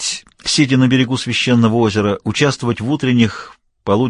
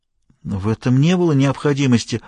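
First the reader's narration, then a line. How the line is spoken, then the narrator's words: Timid official. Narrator (Russian): робко произнес чиновник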